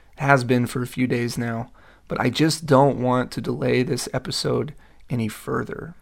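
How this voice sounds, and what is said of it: Hoarse, partly lost voice. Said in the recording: “As you can probably tell, my voice is a little lost today ... I promise my voice will only sound this way during the intro and the outro”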